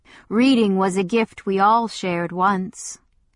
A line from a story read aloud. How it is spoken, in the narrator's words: the Waylord said, his voice no longer mild